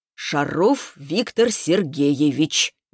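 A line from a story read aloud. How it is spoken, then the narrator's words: Slow. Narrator (Russian): медленно произнес он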